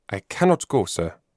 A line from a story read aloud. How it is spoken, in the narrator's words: rejoined Gerhard very firmly